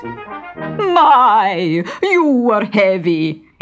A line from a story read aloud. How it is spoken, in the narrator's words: exclaimed the fat one